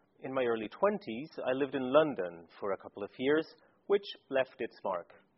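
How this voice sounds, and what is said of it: Foreign accent with Scandinavian lilt. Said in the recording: “I have to some degree a foreign accent in every language I speak... there is still a Scandinavian lilt in there”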